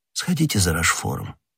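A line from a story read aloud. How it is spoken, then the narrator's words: Low-voiced command. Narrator (Russian): вполголоса приказал Ришелье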